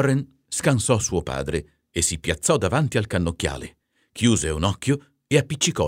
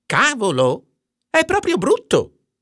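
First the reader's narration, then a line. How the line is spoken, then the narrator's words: Exclaiming. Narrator (Italian): esclamò Warren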